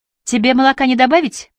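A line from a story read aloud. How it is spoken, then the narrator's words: Shouted from another room. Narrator (Russian): прокричала Кайя из кухни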